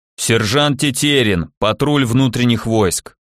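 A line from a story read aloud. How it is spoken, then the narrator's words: Hollow booming voice. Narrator (Russian): прогудело справа, словно в водосточную трубу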